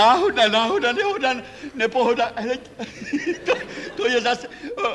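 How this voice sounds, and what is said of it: Usual voice. Nothing is said of it.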